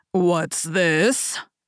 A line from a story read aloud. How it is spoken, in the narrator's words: growled the Father Bear in his great big voice